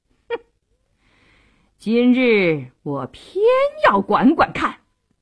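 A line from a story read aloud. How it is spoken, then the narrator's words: Defiant sneer. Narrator (Chinese): 杜世清一点也不示弱，冷笑一声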